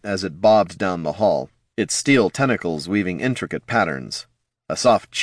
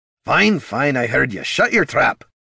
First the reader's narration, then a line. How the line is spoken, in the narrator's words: Gorm grumbled